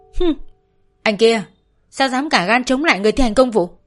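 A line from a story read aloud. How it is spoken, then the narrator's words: Angry shout. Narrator (Vietnamese): Sĩ đập bàn quát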